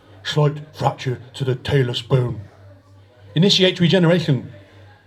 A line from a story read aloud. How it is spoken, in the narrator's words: he heard a voice rumble